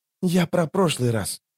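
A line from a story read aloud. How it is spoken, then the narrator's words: Whisper. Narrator (Russian): шепнул он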